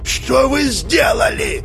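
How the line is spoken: Shouting. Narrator (Russian): закричал Геджин

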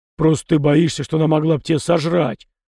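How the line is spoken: Grumble. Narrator (Russian): проворчал Фома

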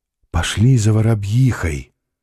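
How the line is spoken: Whisper. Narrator (Russian): прошептала царица

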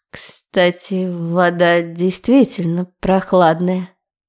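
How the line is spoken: Deep, drawling feline voice. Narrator (Russian): продолжала грудным, покошачьи тягучим голосом

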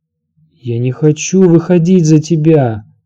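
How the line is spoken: Moan. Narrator (Russian): простонала Санса

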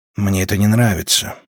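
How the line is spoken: Muttering. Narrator (Russian): пробормотал Манрик

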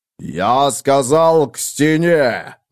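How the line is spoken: Growling. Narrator (Russian): зарычал Танкредо

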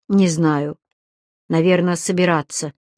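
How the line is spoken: Dejected voice. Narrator (Russian): упавшим голосом произносит

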